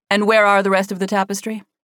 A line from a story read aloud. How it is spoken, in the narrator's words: Allison asked